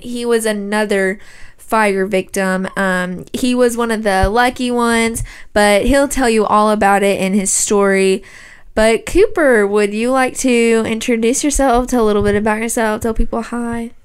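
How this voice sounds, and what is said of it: Put-on news reporter voice. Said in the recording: “talking in that reporter accent ... It's a good reporter accent.”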